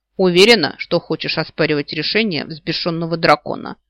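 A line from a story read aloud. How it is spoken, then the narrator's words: Smirking. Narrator (Russian): хмыкнул Рыж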